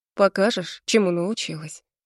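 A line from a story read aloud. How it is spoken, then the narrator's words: Close breathy mutter. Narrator (Russian): бормочет, обжигая кожу дыханием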